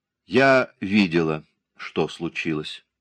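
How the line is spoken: Calm. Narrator (Russian): спокойно начала она

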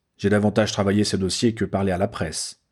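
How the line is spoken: Curt, annoyed reminder. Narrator (French): rappela sèchement Harry, que le bonhomme agaçait prodigieusement

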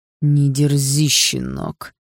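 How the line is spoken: Through gritted teeth. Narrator (Russian): процедил сквозь зубы отец

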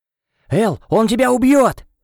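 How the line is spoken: Barked shout. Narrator (Russian): рявкнул

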